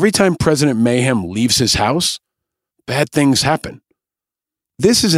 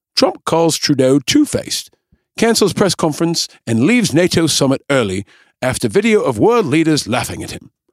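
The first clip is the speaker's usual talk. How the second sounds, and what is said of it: Bad put-on English accent. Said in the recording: “in my bad English accent”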